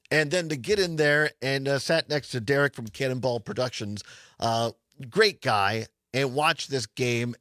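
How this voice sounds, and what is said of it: Rough, strained voice. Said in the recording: “my voice is a little... A little rough today.”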